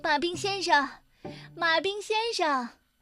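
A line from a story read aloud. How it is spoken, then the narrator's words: Woman shouting. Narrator (Chinese): 麦小姐开始大喊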